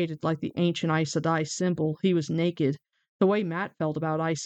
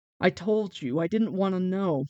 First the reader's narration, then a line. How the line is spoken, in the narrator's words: Matt groaned